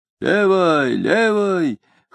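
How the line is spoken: Hoarse soldier's advice. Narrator (Russian): хрипло советовал им высокий солдат

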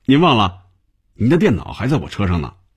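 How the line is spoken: Smiling. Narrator (Chinese): 小丁笑着对红军说

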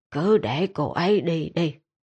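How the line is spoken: Resigned sigh. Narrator (Vietnamese): Ma Ma chỉ thở dài nói

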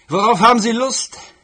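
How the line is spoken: Call through door. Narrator (German): rief er durch die Tür

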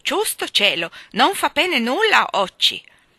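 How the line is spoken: Despairing exclamation. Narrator (Italian): esclamò disperato

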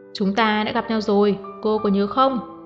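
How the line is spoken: Raised voice, nearly shouting. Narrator (Vietnamese): Uông Dụ Hàm bén cao giọng nói như gào

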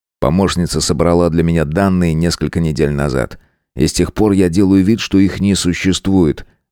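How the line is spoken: Gloomy. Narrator (Russian): мрачно проговорил он

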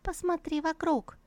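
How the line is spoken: Caring voice. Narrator (Russian): заботливым голосом проговорила небесная лира

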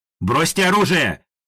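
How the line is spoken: Shouting policeman. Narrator (Russian): кричал полицейский сбоку

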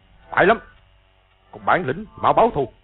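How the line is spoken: Sharp bark. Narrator (Vietnamese): Từ Ân quát lên

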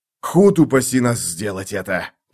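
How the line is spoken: Growled. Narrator (Russian): прорычал Мураш

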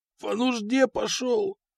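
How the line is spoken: Hoarse rasp. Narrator (Russian): прохрипел он

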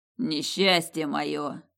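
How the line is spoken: Good-natured grumble. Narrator (Russian): пробурчал он беззлобно

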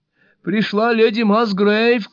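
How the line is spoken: Shout through a door. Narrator (Russian): крикнула лось сквозь дверь

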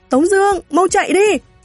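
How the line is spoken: Shout from behind. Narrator (Vietnamese): Hoàng Tiểu Đào từ phía sau la lên

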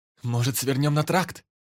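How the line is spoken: Shout. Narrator (Russian): крикнул Лада

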